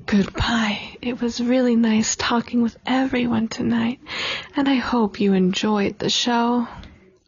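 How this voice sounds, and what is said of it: Sultry phone-sex operator voice. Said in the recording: “you sound like a sex operator”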